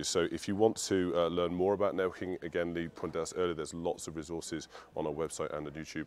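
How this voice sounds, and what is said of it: Hoarse, fading voice. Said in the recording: “my voice is just disappearing”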